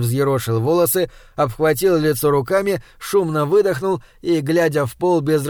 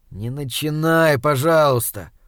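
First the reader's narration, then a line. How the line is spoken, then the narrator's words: Weary. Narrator (Russian): устало произнес Андрей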